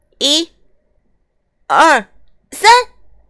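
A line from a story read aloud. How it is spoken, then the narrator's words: Loud counting. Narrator (Chinese): 匹诺丘开始大声数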